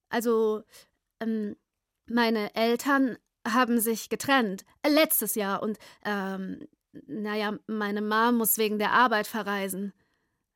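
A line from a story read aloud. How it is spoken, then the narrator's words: Stammering. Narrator (German): brachte Simi stotternd hervor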